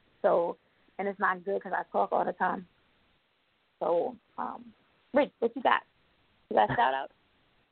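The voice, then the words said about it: Strained, fading voice. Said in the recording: “I'm losing my voice... I lose my voice.”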